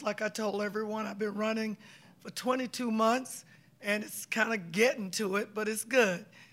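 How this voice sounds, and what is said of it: Worn, strained voice. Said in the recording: “Excuse the voice.”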